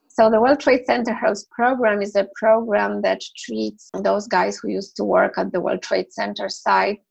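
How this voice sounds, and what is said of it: Scratchy, hoarse voice. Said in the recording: “apologize for my voice, but it's really scratchy. I cannot help it. I've been recovering from some kind of a sickness.”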